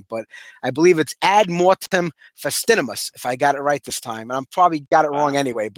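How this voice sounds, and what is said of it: Brooklyn accent. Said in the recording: “it doesn't like come off that way with my Brooklyn accent.”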